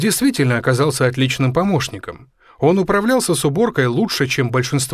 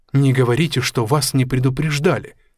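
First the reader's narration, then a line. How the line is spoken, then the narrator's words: Plain. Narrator (Russian): сказала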